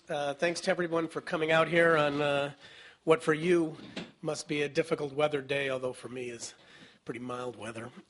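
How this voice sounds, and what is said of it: Hoarse, nearly lost voice. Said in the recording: “As you can hear, my voice is somewhat almost non-existent”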